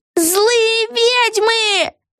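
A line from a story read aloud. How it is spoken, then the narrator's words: Shouted in chorus. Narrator (Russian): Хором завопили все трое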